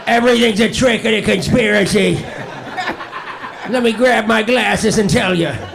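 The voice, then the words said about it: Impression mashup of two people. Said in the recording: “that an impression of Duncan and Colin together? ... That's a Colin mashup.”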